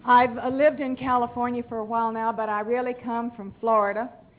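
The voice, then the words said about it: Southern American accent. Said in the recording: “I don't speak English, I speak Southern.”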